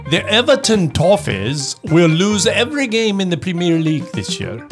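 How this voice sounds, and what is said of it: Put-on British accent that drifts. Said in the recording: “your best British accent ... I don't know what that turned into.”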